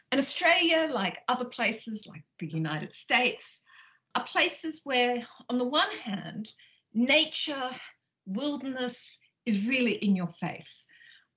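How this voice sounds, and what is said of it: Australian accent. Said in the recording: “as you probably can tell from my accent, I grew up in Australia”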